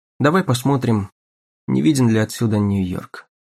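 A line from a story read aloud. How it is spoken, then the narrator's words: Clipped abrupt speech. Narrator (Russian): Он отрывисто проговорил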